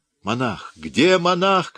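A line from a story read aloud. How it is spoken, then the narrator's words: Shouting. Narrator (Russian): кричал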